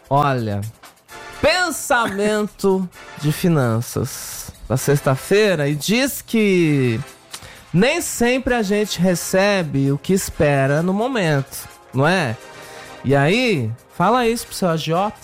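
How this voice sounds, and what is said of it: Imitates a TV presenter's voice. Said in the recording (Portuguese): “é a perfeição da imitação, cara. ... Até o tom de voz. Até o tempo ... O time dela ... Imita igualzinho. ... você imita tão bem a Ana Maria Braga”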